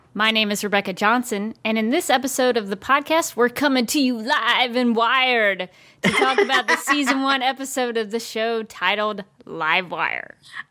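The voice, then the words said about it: Announcer-style radio voice. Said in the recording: “I felt like a radio voice might be appropriate for this episode.”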